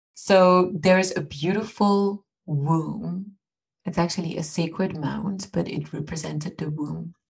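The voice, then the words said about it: French accent speaking English. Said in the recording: “with my French accent in English. Not having an Irish accent either.”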